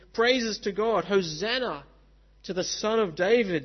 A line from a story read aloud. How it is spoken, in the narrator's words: they cried